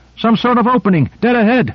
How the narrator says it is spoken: Owen shouted

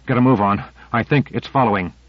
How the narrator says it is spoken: He gasped

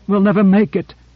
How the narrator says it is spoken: gasped Korra

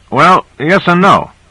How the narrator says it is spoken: said Owens

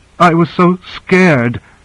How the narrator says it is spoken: she sobbed

